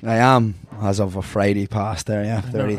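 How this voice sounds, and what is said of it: Slightly raspy voice. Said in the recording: “my voice sounds a wee bit raspy,... it's because we drank for a long time”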